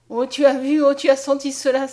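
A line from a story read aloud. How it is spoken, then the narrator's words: Exclaimed. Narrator (French): s'écria Mariette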